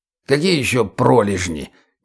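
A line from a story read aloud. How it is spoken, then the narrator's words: Puzzled creaky voice. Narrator (Russian): недоуменно проскрипел Лешак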